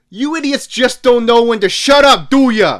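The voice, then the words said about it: Put-on New Jersey accent. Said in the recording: “Typed in a New Jersey accent.”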